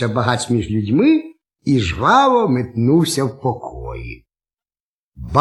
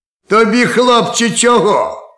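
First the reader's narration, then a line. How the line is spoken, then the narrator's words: Bark. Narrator (Ukrainian): гаркнув суддя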